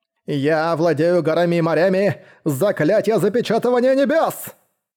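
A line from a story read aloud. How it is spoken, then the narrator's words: Shouting at top of lungs. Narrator (Russian): Закричал во все горло благородный Жань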